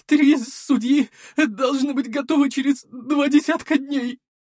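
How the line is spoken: Tearful voice. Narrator (Russian): плачущим голосом ответил альтиец

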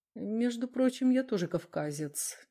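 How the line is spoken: Quiet remark. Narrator (Russian): негромко заметил Дронго

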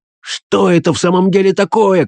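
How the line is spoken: Shouting man. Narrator (Russian): кричал он

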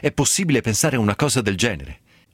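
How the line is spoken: Father bursting out. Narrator (Italian): sbottò il babbo

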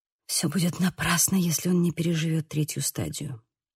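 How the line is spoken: Whisper. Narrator (Russian): прошептала

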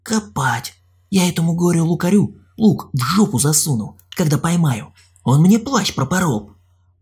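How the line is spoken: Distant whisper. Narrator (Russian): донесся до нас чей-то шепот

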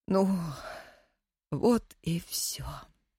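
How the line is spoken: Tearful old woman whispering. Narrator (Russian): вытирая слезы, прошептала старая Настя

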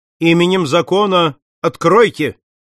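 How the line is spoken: Loud shout. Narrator (Russian): Пинкертон крикнул

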